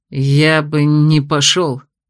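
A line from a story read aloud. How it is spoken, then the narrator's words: Bitter words through clenched teeth. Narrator (Russian): с внезапным ожесточением процедил сквозь зубы блондин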